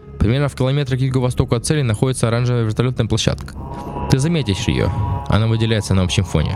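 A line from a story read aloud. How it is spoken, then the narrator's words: Plain. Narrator (Russian): ответил клиент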